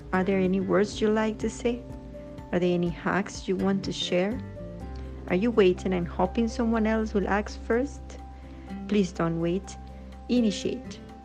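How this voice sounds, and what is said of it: Musical non-native English accent. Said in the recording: “Your accent is simply amazing... It transforms into English into a kind of music.”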